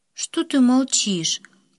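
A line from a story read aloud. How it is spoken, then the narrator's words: Tired question. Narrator (Russian): Как-то устало спросила она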